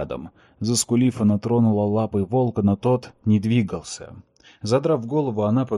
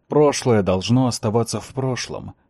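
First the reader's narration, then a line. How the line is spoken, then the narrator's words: Grumbled. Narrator (Russian): проворчал он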